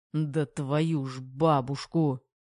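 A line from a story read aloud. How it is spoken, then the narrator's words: Through gritted teeth. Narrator (Russian): Процедил Терех сквозь зубы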